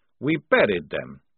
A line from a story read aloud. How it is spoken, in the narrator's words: said Maledict coldly